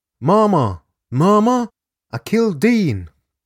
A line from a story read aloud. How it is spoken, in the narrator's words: He cried into the receiver